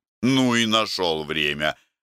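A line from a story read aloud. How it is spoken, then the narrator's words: Grumbling. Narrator (Russian): ворчал Иван Семенович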